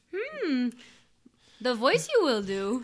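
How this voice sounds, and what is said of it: Yoda impression. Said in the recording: “do the Yoda voice.”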